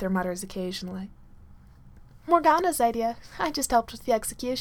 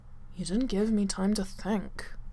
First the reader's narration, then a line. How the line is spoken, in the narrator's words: Arthur mutters at last